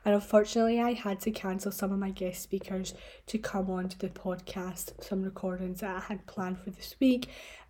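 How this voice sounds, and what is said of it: Unwell, sick-sounding voice. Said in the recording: “You could probably tell by my voice that I'm not sounding 100%. I'm not well.”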